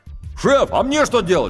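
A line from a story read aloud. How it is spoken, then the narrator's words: Shout from below. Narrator (Russian): крикнул снизу рулевой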